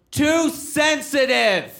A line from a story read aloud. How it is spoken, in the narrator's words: a guy in the audience yells out